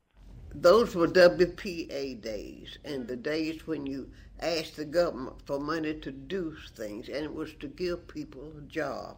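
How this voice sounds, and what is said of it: Strong Southern US accent. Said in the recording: “southern dialect ... that is a real accent.”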